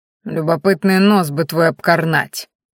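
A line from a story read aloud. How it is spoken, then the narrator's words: Hissed through clenched teeth. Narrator (Russian): процедил сквозь зубы оборотень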